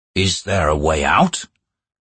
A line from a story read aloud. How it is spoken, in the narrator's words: Dujek asked, his words a growl that startled everyone